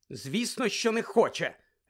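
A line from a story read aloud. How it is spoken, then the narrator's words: Sharp tone. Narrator (Ukrainian): різко мовила Герміона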